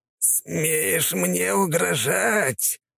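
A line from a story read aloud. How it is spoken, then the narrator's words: Hiss. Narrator (Russian): прошипел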